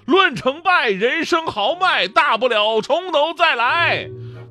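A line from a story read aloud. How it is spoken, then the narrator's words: Shouting. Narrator (Chinese): 我喊的是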